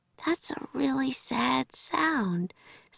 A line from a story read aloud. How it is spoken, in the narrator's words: said Annie sleepily